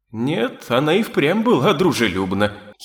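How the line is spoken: Giggling. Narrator (Russian): хихикнул вернувшийся Барбатос

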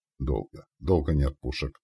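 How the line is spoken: Through gritted teeth. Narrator (Russian): процедил Андрей

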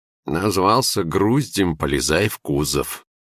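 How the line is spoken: Snide reply. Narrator (Russian): ехидно отозвался голос

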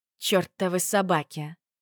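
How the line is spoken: Groaning. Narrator (Russian): простонала я

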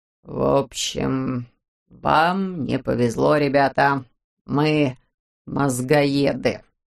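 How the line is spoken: Hoarse confession. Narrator (Russian): сипло признался он

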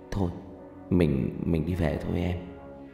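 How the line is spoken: Soft. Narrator (Vietnamese): Thành nói khẽ

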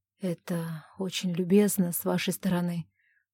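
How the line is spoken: Embarrassed hoarse rasp. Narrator (Russian): прохрипел Тайн, почувствовав, как заливается краской

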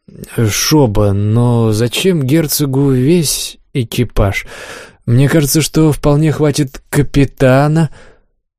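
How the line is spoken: Cough, uncertain objection. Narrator (Russian): Олег, кашлянув, неуверенно возразил

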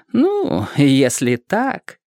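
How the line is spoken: Sly drawling inner voice. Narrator (Russian): ехидно протянул внутренний голос

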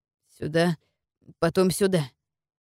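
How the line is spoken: Muttering. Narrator (Russian): бормотал Туган

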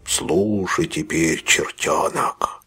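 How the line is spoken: Hissed. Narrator (Russian): прошипел Сайкс

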